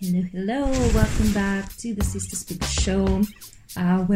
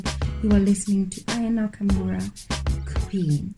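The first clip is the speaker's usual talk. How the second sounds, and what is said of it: Put-on French accent. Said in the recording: “That's me in my French accent.”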